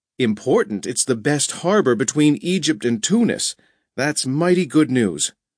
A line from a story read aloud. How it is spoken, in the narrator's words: Byron exclaimed